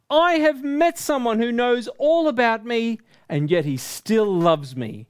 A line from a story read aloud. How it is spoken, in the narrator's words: yelled